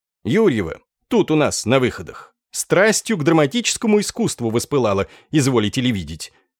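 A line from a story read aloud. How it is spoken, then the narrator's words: Loud, unabashed. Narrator (Russian): ответил режиссер громко и совершенно не стесняясь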